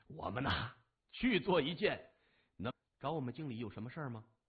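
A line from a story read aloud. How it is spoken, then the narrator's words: Laughing. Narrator (Chinese): 李爽笑着说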